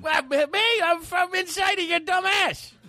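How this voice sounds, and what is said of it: Comedic character voice. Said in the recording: “he wasn't even doing an impression of me. He was doing his stupid character, Shifty.”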